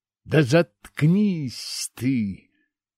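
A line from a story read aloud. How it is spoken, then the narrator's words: Angry exhaled. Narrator (Russian): злобно выдохнул я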